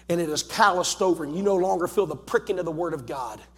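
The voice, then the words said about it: Southern accent. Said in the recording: “a boy with a southern accent”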